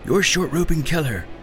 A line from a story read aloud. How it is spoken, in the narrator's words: Nima yelled at Ronnie